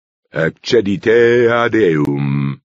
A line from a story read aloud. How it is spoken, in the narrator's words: the reader intoned